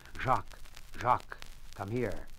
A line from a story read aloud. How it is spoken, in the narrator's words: called softly